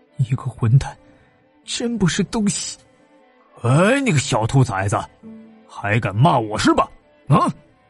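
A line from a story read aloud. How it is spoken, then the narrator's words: Fierce, through gritted teeth. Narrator (Chinese): 他咬牙，狠狠的说道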